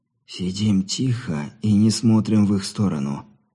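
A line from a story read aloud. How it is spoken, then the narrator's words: Barely audible, through teeth. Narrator (Russian): сквозь зубы, едва слышно, скорее выдохнул, чем проговорил он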